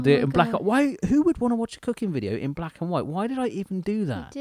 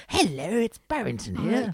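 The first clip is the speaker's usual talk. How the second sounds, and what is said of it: Put-on character voice. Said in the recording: “I would do a character like Barrington ... I'd do a voice.”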